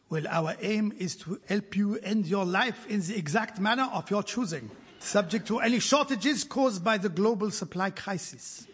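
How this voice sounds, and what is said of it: Put-on Swiss German or French accent. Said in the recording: “My accent has changed because... I know Dignitas is in Switzerland. I don't know if it is German or French”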